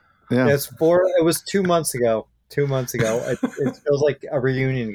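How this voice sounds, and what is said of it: Usual voice. Nothing is said of it.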